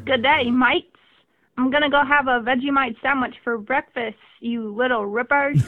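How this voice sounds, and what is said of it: Put-on Australian accent. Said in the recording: “great Australian accents”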